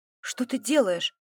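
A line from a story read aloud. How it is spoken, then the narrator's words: Sleepy question. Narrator (Russian): спросила сонно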